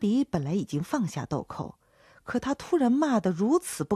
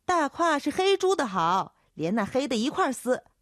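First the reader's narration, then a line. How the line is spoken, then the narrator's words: Young woman shouting back. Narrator (Chinese): 叫豆蔻的年少姚姐喊回去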